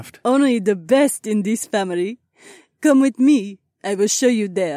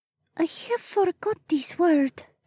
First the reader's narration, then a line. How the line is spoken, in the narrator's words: the alien whispered